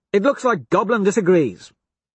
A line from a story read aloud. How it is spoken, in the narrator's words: Cassius snaps